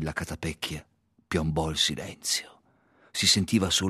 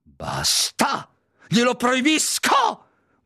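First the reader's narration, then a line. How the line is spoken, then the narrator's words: Panicked shout. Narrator (Italian): gridò zio Vernon in preda al panico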